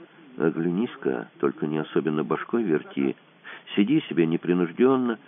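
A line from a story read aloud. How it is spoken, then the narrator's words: Quiet. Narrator (Russian): Тихо сказал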